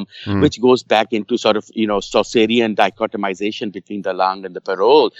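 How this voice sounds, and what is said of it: Speaker's own non-native accent. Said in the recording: “please forgive my pronunciation and accent. I kind of speak French, so I can't really speak these words well.”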